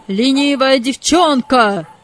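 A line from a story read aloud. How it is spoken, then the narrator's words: Shouted. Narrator (Russian): закричал хозяин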